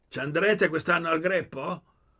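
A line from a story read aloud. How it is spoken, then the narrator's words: Shouting. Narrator (Italian): Gridò a Poli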